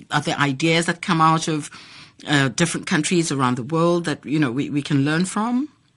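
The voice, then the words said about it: Noticeable accent. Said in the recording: “you do have an accent”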